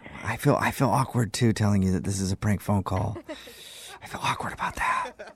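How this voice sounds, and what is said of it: Whispering. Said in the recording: “Why is your voice like that?... whispering?... I don't know why you're whispering like that.”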